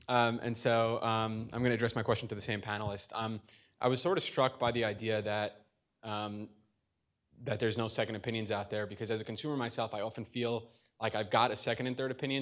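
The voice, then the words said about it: Speaks with a noticeable accent. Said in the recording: “I'm sorry for my accent.”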